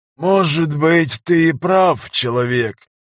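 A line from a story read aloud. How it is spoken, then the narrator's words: Old man's proclaiming voice. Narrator (Russian): возвестил шаман старческим голосом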